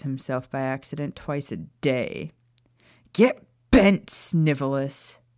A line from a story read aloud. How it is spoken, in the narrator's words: Sirius growled